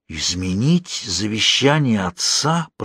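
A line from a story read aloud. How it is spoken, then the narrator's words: Shocked whisper. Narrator (Russian): прошептал Жак, потрясенный этим последним ударом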